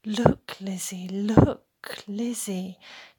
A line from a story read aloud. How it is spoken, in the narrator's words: whispered like the restless brook